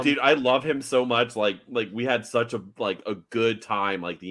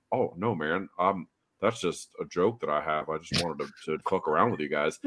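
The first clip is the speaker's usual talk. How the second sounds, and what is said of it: Imitates another person's voice. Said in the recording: “my Walt impression. I love my Walt impression. ... It's great. It's so good.”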